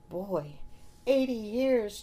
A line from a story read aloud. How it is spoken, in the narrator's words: Johnny exclaimed